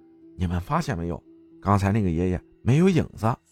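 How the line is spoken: Child whispering. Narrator (Chinese): 有一个小伙伴小声说

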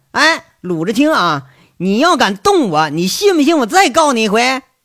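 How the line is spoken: Shouting. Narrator (Chinese): 张年贵马上喊了

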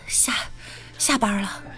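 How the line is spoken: Breathless. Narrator (Chinese): 我喘着气就说

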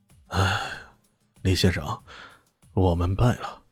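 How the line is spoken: Long sigh. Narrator (Chinese): 他的儿子石洛基长叹一声说道

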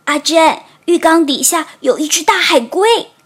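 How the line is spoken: Panicked cry. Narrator (Chinese): 波卡慌里慌张地叫道

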